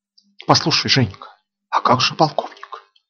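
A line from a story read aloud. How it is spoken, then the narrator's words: Whispered question. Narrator (Russian): Шепотом спросила Рита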